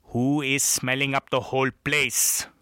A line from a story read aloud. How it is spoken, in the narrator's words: boomed louder